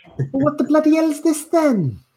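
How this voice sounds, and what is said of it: Put-on Welsh accent. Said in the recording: “It comes out Welsh instead. ... it comes out very Welsh.”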